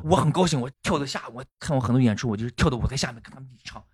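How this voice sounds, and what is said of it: Gansu regional accent. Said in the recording (Chinese): “这这这甘肃口音啊！”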